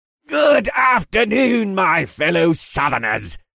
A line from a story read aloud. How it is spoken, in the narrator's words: cried out in a brittle but friendly voice